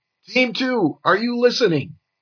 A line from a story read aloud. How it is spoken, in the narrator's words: The commander yelled